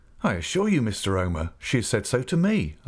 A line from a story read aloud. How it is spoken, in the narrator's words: I returned eagerly